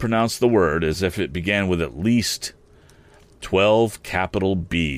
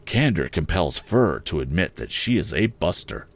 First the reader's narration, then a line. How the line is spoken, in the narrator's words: Joe sank his voice to a whisper